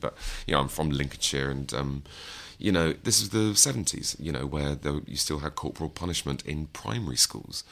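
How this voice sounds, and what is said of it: Middle-class English accent. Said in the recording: “I didn't always sound like this, by the way. I've been doing an impression of a middle class person since I was sort of 15.”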